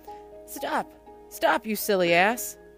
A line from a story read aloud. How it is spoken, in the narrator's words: cried the rat